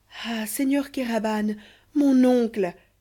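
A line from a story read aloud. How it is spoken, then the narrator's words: Exclaiming. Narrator (French): s'écriait Amasia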